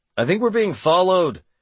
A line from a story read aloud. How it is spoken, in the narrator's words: I shouted to Casey